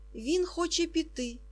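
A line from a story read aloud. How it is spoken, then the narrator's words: Almost frightened. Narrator (Ukrainian): майже злякано сказав Момус господині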